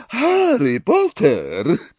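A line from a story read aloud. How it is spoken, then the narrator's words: Deep, vibrating voice. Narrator (Polish): powiedziała profesor Trelawney głębokim, wibrującym głosem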